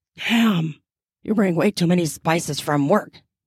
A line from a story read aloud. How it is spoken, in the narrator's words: he mutters